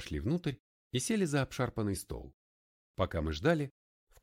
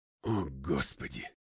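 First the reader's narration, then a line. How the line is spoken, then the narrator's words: Breathless exclamation. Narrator (Russian): только и выдохнул я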